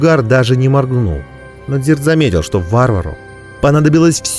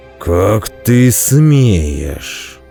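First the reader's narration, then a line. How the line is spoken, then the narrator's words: Through clenched jaw. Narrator (Russian): процедил варвар сквозь стиснутую челюсть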